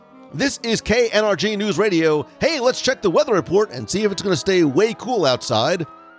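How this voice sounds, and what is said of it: Radio announcer voice. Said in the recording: “I'm putting my somewhat radio announcer voice on when I do it”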